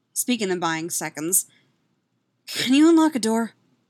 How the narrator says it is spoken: She gasps back

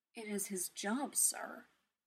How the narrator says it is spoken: Jarvis said, his voice quiet

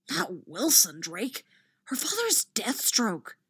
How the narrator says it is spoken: a round-faced Hufflepuff hisses

